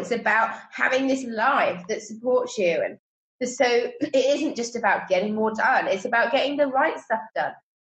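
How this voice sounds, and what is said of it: Speaks with a noticeable accent. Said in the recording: “your beautiful accent”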